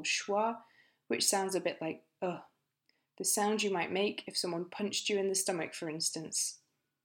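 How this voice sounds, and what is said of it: British English accent. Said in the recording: “not my accent, I'm British ... As a British English speaker”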